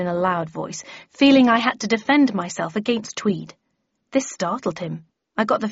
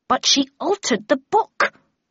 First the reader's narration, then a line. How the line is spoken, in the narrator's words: cried Tweed angrily